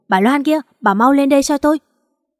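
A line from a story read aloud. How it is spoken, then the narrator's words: Shouting from upstairs. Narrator (Vietnamese): tiếng Thư hét lên trên lầu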